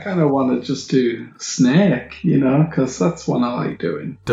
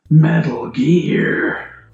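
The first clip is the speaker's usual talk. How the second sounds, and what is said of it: Poor Solid Snake impression, Grover-like. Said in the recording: “You sound like Grover from Sesame Street. ... It's Solid Snake. ... That was pitiful, man.”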